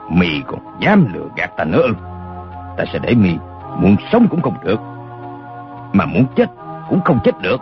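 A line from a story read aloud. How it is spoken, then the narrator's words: Fierce, menacing voice. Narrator (Vietnamese): mắt lộ hung quang, gằn giọng nói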